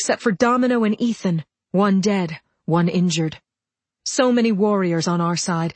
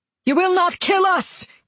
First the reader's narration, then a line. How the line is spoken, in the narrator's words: Keegan yelled